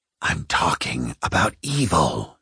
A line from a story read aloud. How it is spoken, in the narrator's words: she said, her voice a thin whisper in the dark between them